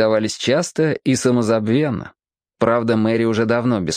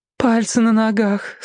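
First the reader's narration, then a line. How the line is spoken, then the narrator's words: Moaning. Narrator (Russian): стонала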